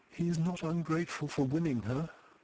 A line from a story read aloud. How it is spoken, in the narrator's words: whispered Eustacia